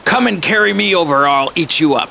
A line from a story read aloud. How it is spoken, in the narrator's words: he roared out at the ducks in a terrible voice